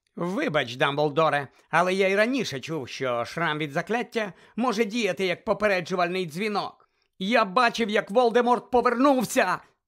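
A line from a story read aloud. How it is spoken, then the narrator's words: Shouting. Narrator (Ukrainian): закричав Гаррі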